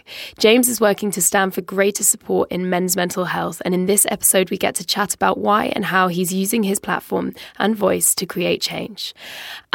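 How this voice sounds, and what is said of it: Strained, fading voice. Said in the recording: “As you might be able to hear, my voice is going a little bit”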